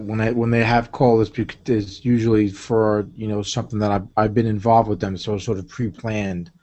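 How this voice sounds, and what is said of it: Strong New York accent. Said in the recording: “you have an accent ... that's a pretty rich New York accent there”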